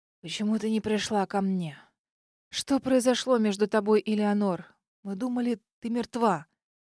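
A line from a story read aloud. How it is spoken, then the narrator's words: Hollow voice. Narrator (Russian): Дед глухим голосом проговорил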